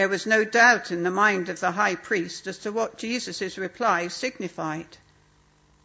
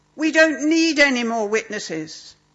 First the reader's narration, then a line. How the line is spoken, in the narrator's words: His voice shrill with victory, he shouted